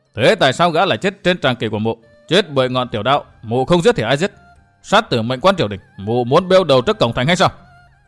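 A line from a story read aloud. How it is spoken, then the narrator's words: Harsh voice. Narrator (Vietnamese): Lâm Tứ gằn giọng nói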